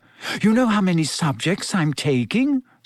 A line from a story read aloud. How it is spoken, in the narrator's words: Said Hermione breathlessly